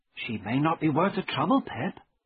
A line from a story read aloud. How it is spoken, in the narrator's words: Biddy said gently